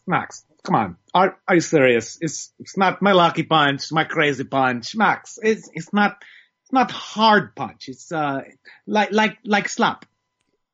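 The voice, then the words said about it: Imitates another person's voice. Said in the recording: “You got the pronunciation, you got the impersonation for me.”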